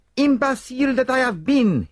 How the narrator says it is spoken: cried

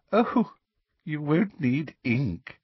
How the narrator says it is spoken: said Professor Umbridge, with the merest suggestion of a laugh in her voice

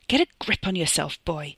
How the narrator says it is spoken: the head of the family snarled in his ear

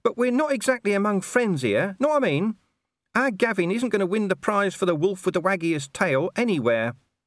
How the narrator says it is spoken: whined Gaspode

